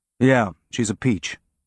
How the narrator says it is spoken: he said

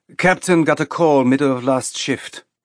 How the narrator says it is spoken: the woman said in a clipped accent that sounded European

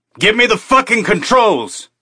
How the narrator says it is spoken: he shouted

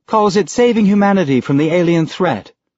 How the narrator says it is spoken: Sam said sweetly

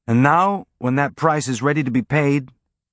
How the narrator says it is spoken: Amos said, his tone friendly and conversational

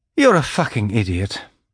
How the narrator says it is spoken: the old woman sighed

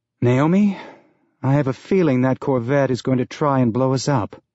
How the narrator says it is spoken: Holden said with a sigh

